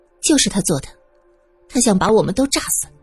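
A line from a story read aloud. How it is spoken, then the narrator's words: Cold. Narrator (Chinese): 苏三冷着脸说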